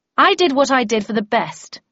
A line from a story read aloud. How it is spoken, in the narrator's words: I said in a loud voice, feeling I had to defend myself against Tweed